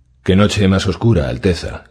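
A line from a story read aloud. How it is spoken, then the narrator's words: Murmured. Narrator (Spanish): murmuró Dorcas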